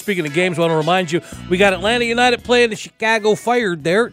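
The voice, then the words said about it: Put-on Chicago accent. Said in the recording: “I said Chicago Fire, so I was doing a Chicago accent there.”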